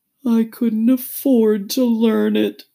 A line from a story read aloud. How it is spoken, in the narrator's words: said the Mock Turtle with a sigh